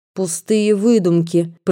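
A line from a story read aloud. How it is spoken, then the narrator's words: Spiteful words through teeth. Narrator (Russian): процедила озлобленно мадемуазель Арно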